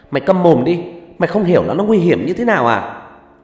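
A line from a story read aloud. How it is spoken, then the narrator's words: Angry female shout. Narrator (Vietnamese): một trong hai người con gái hét lên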